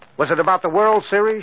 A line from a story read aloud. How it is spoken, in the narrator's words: she asked, as though trying desperately hard to prompt him